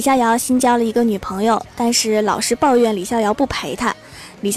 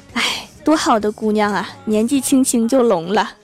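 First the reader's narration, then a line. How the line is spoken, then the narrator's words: Sighing older women. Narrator (Chinese): 两个保洁阿姨，他们叹息了一声，说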